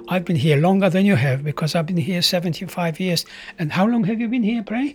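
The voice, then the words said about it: Foreign accent, not New Zealand. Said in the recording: “accent is undoubtedly a foreign accent. It's not a New Zealand accent.”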